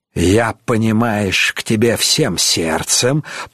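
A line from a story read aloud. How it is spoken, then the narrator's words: Hissing. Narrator (Russian): прошипел Пашко Рым-баба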